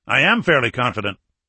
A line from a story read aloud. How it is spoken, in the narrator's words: O'Malley said